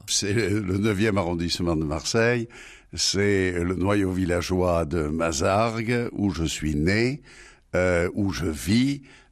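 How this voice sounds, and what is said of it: Marseille accent. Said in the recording (French): “Quand on l'écoute, c'est tout Marseille qui résonne... avait l'accent”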